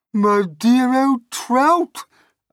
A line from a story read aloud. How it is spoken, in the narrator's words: Aunt Sponge cried out